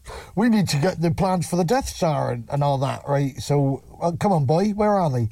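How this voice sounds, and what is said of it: Put-on Bristol accent. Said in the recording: “He's got a Bristol accent, and he was like”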